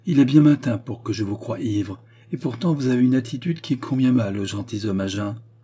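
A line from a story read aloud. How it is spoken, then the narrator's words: Cold. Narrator (French): dit-elle froidement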